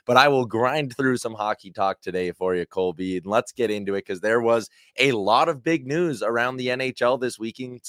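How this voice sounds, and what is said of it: Strained voice, not its usual sound. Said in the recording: “my voice is not what it usually is for a handful of reasons as well. Yelling at the TV last night may be one of those contributing factors.”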